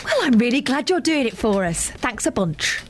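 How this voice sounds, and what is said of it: Sarcastic delivery. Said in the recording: “One of you sounded sarcastic”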